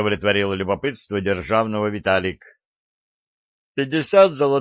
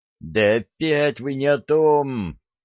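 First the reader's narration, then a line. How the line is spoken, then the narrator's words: Female hissing. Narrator (Russian): зашипела на них Василиса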